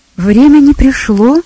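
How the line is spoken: Exclaiming young man. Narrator (Russian): воскликнул юноша

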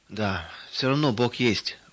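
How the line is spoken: Sighing. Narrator (Russian): вздохнул он

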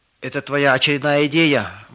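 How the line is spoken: Shout. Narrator (Russian): выкрикнул кто-то

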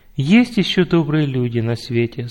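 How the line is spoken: Plain. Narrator (Russian): сказала мама

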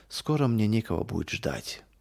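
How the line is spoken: Heavy-sighing old woman. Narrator (Russian): ответила бабушка Катерина и, тяжело вздохнув, добавила

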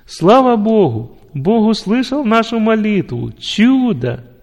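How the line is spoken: Loud joyful shout. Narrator (Russian): заставило его громко закричать от радости

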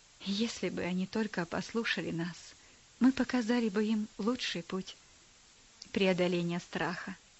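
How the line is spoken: Sigh. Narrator (Russian): вздохнул он

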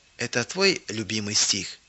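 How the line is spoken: Quiet question. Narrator (Russian): Элла тихо спросила

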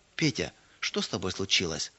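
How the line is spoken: Gentle. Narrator (Russian): Ласково спросила она

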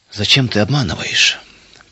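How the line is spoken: Sad question. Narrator (Russian): печально спросил отец

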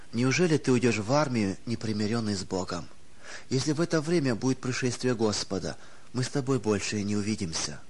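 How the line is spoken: Sad. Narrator (Russian): уже не первый раз печально говорила Нина Матвеевна

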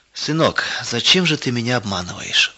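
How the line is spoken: Sad quiet question. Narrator (Russian): вдруг спросил грустно и тихо

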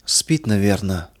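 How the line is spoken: Old woman whispering. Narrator (Russian): прошептала старушка

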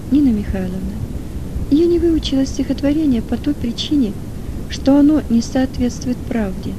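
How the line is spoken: Calm. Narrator (Russian): она спокойно ответила

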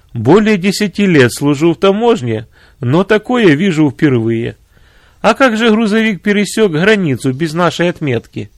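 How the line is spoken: Speaking after laughter. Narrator (Russian): Отсмеявшись, он сказал

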